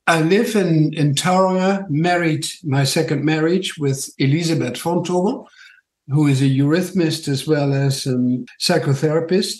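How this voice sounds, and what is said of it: Dutch accent. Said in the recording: “My funny accent is from Holland”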